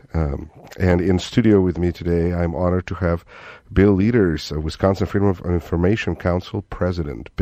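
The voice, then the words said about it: Russian accent. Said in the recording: “Russian accent”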